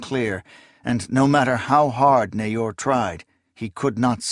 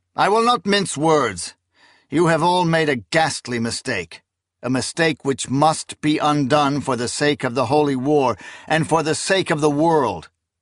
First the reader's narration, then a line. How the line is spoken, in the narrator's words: he said in a loud, clear voice